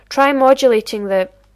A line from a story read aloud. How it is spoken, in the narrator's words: Taylor cry out